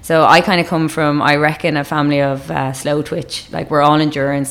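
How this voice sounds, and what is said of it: Irish accent. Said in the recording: “everyone can tell your Irish accent”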